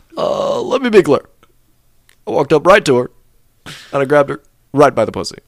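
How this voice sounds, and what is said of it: Barack Obama impression. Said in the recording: “I tried out an Obama impression”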